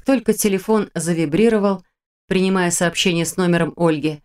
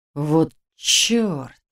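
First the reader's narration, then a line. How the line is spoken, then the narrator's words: Through gritted teeth. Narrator (Russian): процедил он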